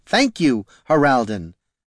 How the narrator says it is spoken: said Caitha, much more firmly

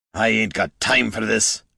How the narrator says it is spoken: grumbled Gorm

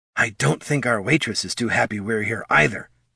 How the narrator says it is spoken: whispered Thane

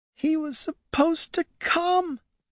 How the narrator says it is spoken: Marja sobbed quietly

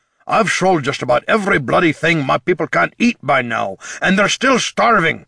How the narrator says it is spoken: snapped the king

